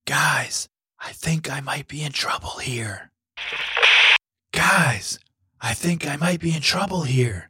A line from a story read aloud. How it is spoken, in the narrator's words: Finn said, in the softest whisper he could manage